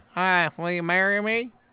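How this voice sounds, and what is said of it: Imitates another person's voice. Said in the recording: “That was a horrible Owen Wilson impersonation. ... that's one of the better ones I've heard.”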